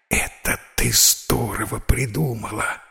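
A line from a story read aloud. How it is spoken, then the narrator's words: Joyful whisper. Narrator (Russian): радостно шепнул див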